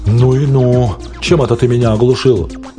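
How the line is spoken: Groaning, modern English. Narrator (Russian): Байтер застонал, сказал на современном английском языке

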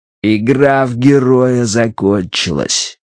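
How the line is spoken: Through gritted teeth. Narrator (Russian): процедил Джонстон

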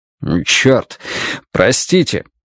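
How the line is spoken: Booming, resounding voice. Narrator (Russian): его зычный голос прогремел на весь подъезд

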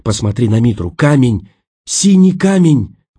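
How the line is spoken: Breathless exclamation. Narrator (Russian): выдохнула она

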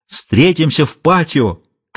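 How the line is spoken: Nervously excited shout. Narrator (Russian): крикнул вдогонку Дон Энрике, охваченный нервным возбуждением

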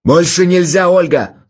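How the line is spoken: Shouting. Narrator (Russian): закричал он

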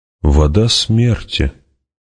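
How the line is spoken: Slow. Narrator (Russian): медленно сказал он

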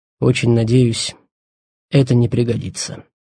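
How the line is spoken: Quiet, after a cough. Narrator (Russian): Он кашлянул, тихо добавил

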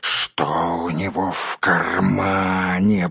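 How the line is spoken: Hiss. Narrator (Russian): прошипел Голлум

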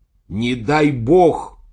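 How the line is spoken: Shout. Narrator (Russian): закричал я

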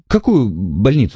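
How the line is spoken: Babbling. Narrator (Russian): лепетал человек

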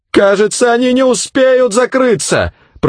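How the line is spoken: Shouting. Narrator (Russian): прокричала она

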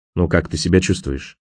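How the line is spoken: Quiet question. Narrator (Russian): баронет тихо спросил

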